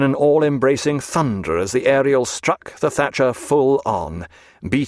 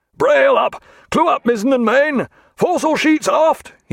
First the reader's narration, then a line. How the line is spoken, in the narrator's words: cried